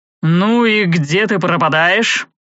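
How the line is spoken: Grumbled. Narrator (Russian): заворчал Зевс

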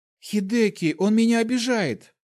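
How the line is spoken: Loud sobbing woman. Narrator (Russian): ослепительная красавица громко зарыдала

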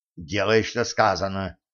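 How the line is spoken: Whisper. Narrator (Russian): шепнул Кощей

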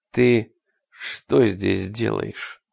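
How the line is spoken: Dull, muffled question. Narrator (Russian): глухо спросил он

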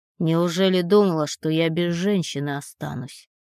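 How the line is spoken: Through gritted teeth. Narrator (Russian): проговаривает сквозь зубы

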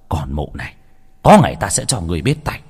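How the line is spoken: Man muttering. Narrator (Vietnamese): Ông ta lẩm bẩm

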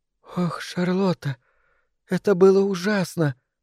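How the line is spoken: Tearful quiet sobbing. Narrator (Russian): сморгнула слезы и принялась тихонько всхлипывать

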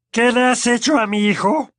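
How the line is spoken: Menacing roar. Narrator (Spanish): preguntó con un rugido amenazador

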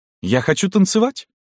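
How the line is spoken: Exclaiming. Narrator (Russian): воскликнула она

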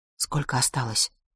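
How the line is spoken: Low-voiced question. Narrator (Russian): спрашиваю я вполголоса

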